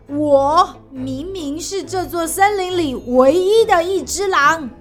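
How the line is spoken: Angry roar. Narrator (Chinese): 它怒吼

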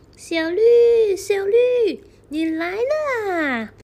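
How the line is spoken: Happy call. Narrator (Chinese): 一声很快乐的声音从后面叫起

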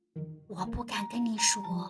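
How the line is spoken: Quiet. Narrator (Chinese): 他小声地说

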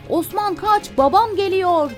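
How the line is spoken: Shouted. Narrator (Turkish): diye bağırdı

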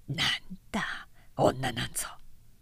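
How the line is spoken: Muttered. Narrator (Japanese): とつぶやいた

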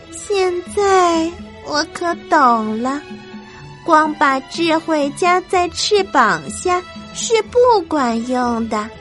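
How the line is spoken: Sighing. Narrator (Chinese): 皮杜尼 最后他叹了口气说

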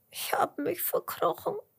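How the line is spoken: Earthworm sobbing. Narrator (German): schluchzt der Regenwurm

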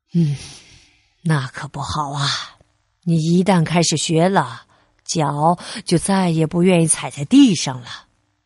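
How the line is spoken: Sighing. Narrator (Chinese): 贝利尼叹了口气说

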